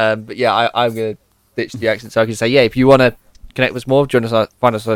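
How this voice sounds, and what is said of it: Usual voice. Nothing is said of it.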